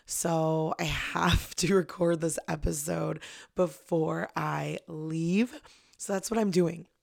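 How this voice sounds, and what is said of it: Strained voice, still recovering. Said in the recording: “a little disclaimer about my voice... My voice is still healing... I think I've just been talking too much”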